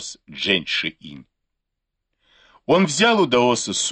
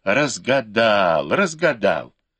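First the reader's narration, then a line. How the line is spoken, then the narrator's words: Joyful exclamation. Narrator (Russian): Даос радостно воскликнул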